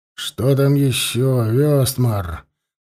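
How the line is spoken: Tired king asking. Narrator (Russian): устало спросил король

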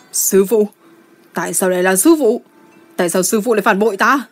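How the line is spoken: Anguished scream. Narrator (Vietnamese): Gia Luật Tòng Phi hét lên như một con dã thú bị thương

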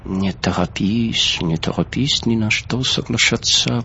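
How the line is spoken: Whispered in ear. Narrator (Russian): прошептал в ухо

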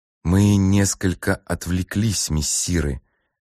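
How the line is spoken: Even voice. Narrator (Russian): заметил легат Хештахахтис ровным голосом

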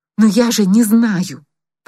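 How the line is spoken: Desperate exclamation. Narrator (Russian): почти в отчаянии воскликнула она

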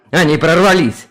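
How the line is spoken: Growling. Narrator (Russian): прорычал Юстиниан

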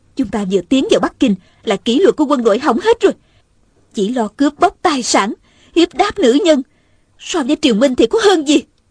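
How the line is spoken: Angry. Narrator (Vietnamese): Hồng Nương Tử giận dữ nói

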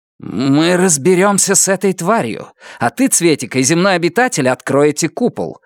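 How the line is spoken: Barked order. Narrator (Russian): рявкнула Нефрита

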